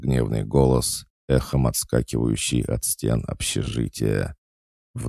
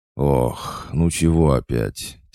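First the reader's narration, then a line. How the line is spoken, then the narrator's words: Heavy sighing question. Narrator (Russian): тяжко вздохнув, спросил я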